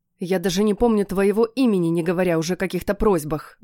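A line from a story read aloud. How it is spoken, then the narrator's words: Grumpy mutter. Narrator (Russian): буркнула Мариэлла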